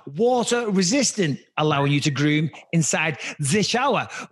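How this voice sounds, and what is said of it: Put-on German accent. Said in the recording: “why did you start doing a German accent when you mentioned the showers?”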